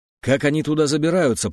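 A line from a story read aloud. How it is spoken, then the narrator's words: Growled. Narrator (Russian): прорычал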